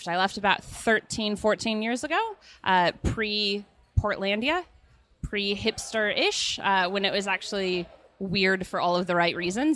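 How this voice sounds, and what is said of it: Portland, Oregon accent, not Australian. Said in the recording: “it's not a great Queensland accent you're sporting there... So where is your accent from?... I'm originally from Portland, Oregon.”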